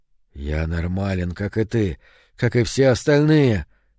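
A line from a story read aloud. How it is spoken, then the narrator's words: Hoarse. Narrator (Russian): хрипло сказал он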